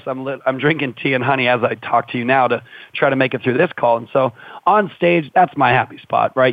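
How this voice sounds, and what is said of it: Slightly hoarse voice. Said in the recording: “my voice is a little hoarse right now because I just did 27 hours this weekend ... my voice is still a little hoarse”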